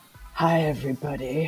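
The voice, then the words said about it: Sultry imitated voice. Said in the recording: “Oh, that's so sultry. ... my boogie impersonation.”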